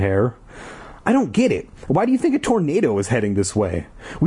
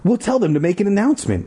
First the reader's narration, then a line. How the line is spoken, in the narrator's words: Ashley cried, hurrying off